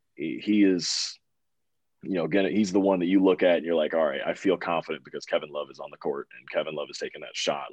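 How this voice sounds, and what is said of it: Hoarse, slightly raspy voice. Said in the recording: “my voice is a little bit hoarse, like a little bit raspy, because I've been screaming just at training camp”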